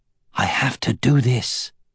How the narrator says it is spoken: he replied quietly

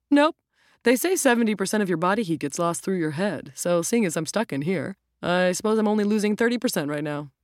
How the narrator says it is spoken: chuckled

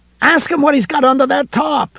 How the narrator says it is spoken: Ed yelled suddenly

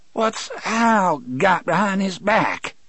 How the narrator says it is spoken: Percy asked in a ragged voice

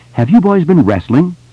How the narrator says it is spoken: She asked sharply

